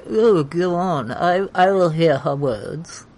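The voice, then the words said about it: Imitated character voice. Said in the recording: “That's my Joffrey impression.”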